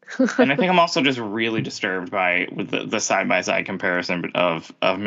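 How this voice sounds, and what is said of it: Usual voice. Nothing is said of it.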